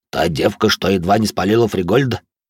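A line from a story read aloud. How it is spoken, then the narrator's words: Snorting scoff. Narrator (Russian): хмыкнул Толя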